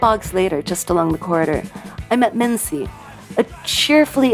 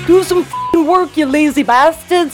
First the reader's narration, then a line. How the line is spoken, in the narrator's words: yelled in broad Geordie